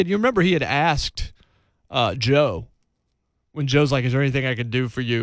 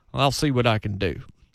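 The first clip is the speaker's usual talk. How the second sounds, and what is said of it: Poor put-on Southern accent. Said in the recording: “It's the worst Kathy Bates Southern accent I could have done right there.”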